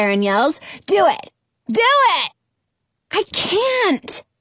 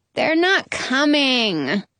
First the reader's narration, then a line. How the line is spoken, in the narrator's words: Sharon whines